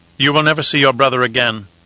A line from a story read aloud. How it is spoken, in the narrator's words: the proctor said coldly